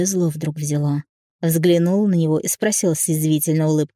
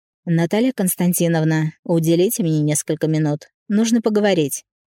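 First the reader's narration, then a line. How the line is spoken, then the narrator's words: Even tone. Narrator (Russian): ровным тоном произнес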